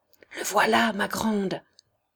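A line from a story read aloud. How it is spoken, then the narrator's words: Child murmuring. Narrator (French): murmura l'enfant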